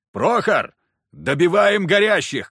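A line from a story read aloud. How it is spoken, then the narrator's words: Shout. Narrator (Russian): крикнул я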